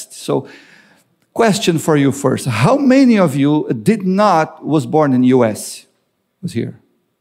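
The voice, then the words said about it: Broken English, Latino accent. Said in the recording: “a broken English with a Latino accent, which is not that great”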